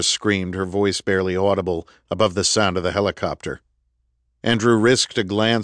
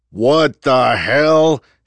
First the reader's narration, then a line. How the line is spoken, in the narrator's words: he roared